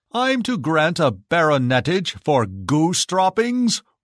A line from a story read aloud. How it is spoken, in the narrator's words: roared the Emperor